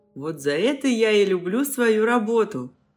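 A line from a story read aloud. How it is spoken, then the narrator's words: Chuckling. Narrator (Russian): хохотнул Гриша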